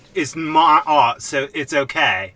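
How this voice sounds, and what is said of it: Michael Caine impression. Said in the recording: “That almost sounded a little like your Michael Caine accent. ... It sounded a lot like it.”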